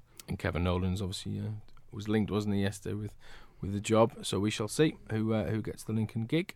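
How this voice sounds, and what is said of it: Strained, fading voice. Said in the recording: “Excuse me, I'm losing my voice.”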